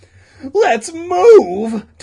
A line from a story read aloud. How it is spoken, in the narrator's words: Todd cried